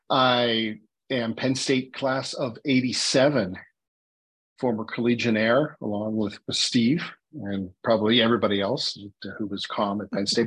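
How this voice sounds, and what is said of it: Pittsburgh accent. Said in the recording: “I am native Pittsburgher. I grew up on the north side, which explains my accent.”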